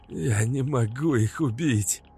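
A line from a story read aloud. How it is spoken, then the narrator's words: Hoarse straining rasp. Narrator (Russian): Прохрипел Максим, пытаясь высвободиться из захвата Березина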